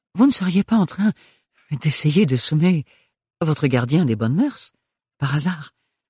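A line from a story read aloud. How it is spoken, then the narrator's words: Mischievous panting. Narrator (French): haleta le baron Melchior non sans une certaine malice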